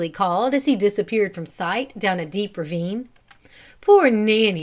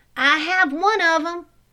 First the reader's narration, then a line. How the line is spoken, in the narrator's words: Mike called out